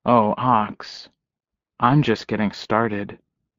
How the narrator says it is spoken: saying in a low voice

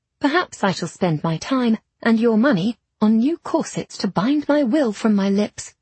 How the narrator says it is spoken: I said sweetly

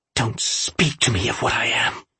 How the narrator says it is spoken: the woman hissed

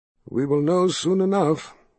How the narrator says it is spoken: the wizard sighed

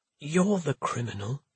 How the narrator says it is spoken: His voice was hoarse as he said

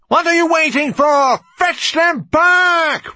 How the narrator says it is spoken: roared the piper

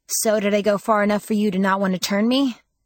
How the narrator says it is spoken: asked as cheerfully as I could manage

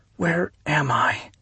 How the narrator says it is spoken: she asked, whispering

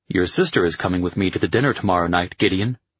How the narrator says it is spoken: Chris said

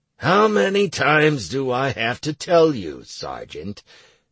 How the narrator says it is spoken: said the NPC warden wearily

